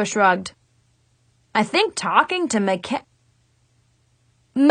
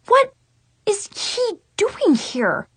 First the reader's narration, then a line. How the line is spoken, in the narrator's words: I sputtered